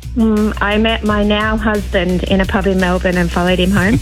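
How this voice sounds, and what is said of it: Australian accent. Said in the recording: “the old accent hasn't softened ... Sometimes I get mistaken for a Kiwi. ... But mostly Australian.”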